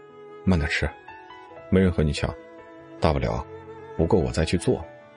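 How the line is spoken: Tender, gentle. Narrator (Chinese): 冷风心疼的，温柔的

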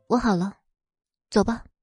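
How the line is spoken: Soft voice. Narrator (Chinese): 他……轻声开口

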